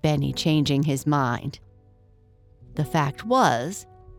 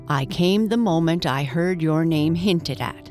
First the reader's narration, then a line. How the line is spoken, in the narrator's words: said James Cordis